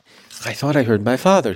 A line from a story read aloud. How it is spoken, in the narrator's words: he gasped